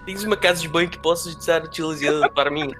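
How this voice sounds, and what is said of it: Put-on European Portuguese accent. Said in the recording (Portuguese): “faz um Dumbledore com sotaque português. Eu sempre imaginei ele com sotaque português.”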